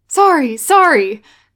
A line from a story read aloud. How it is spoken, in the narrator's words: Guy cries